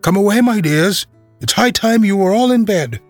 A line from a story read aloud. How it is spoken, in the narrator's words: a canary called out in a trembling voice to its children